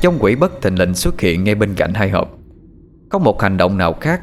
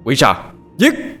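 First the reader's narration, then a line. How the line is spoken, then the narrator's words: Shout echoing through night. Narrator (Vietnamese): một tiếng hét như vang động cả màn đêm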